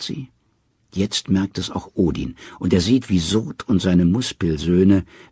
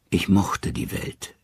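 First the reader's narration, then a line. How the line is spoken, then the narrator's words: Calm. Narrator (German): sagt er ruhig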